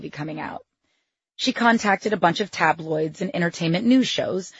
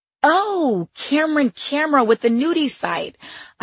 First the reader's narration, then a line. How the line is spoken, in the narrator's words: I said, blurting it out like a charades answer to show how cool I was with this